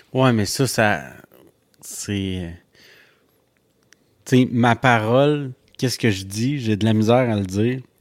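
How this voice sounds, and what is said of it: Strong accent when speaking French. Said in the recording (French): “je parle en anglais, j'ai un gros accent, mais je parle en français, j'ai un gros accent.”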